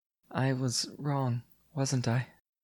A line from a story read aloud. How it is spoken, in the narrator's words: Lysoth hesitated, then said in a small voice